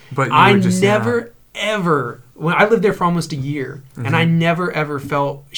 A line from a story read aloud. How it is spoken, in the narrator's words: she cried